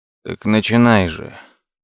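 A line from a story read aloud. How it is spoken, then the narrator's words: Weary sigh. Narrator (Russian): Лес устало вздохнул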